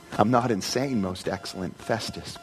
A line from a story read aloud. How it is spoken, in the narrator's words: Paul replied